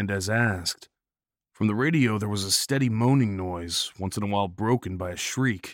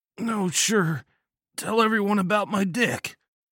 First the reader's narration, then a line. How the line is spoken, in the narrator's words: Bomber bitched, his voice low and pain-filled